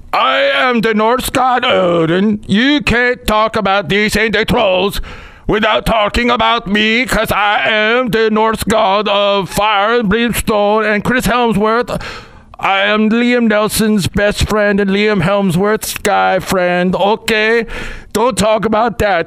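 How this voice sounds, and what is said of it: Put-on Nordic accent. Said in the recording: “I'm doing my Nordic accent”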